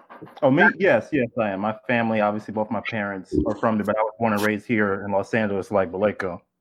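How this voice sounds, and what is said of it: American accent. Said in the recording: “it's with the American accent.”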